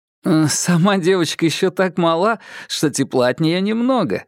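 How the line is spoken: Laughing. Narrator (Russian): рассмеялся Киплинг

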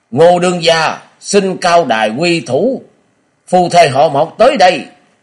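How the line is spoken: Loud shout. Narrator (Vietnamese): một tiếng quát to

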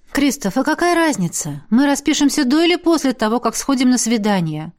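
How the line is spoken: Soft. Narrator (Russian): Произнесла я мягко

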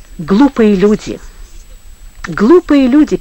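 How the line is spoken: Sad, calm, peaceful voice. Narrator (Russian): печально сказал Иван Павлович спокойным мирным голосом, ничем не выдавая бури в своей душе

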